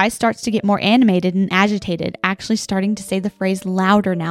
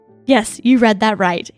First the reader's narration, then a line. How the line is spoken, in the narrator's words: said